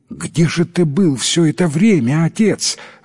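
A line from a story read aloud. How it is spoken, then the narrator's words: Exclamation. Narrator (Russian): воскликнул он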